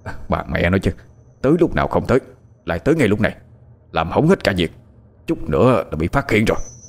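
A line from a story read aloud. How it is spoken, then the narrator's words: Angry muttering. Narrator (Vietnamese): hắn tỏ vẻ tức giận, miệng còn lẩm bẩm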